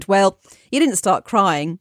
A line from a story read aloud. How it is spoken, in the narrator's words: stifled a laugh and offered